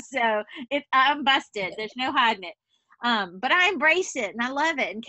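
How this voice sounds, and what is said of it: Southern US accent, Louisiana. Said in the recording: “We are 3 Southern women right here... I too am from Louisiana, if y'all couldn't tell by the accent... are you from the South, or where in the South are you from?”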